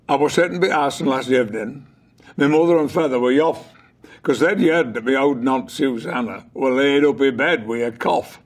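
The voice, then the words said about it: West Riding Yorkshire dialect. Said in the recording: “I spoke with a Yorkshire accent. But it wasn't just an accent. It was actually dialect ... So I'll give you a little example ... West Riding dialect.”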